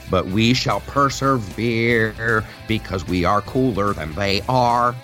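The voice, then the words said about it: Nerdy character voice. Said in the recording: “I used my nerd voice for that.”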